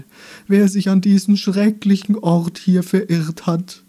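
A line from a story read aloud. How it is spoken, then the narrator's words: Wailing, pitiful voice. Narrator (German): sagte der mit jammervoller Stimme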